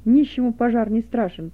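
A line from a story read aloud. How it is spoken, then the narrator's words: Loud. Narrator (Russian): Быков со словами, сказанными громко начальнику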